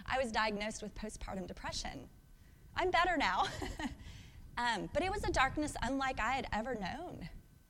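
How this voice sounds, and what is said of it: Emotional, voice breaking. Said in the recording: “I don't know why I'm getting emotional”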